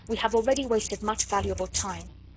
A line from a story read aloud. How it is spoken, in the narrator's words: said Chauvelin impatiently